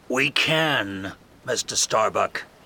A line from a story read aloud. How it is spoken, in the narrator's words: Ahab says coldly